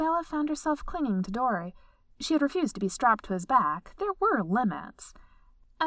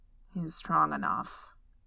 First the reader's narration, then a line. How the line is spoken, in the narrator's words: he muttered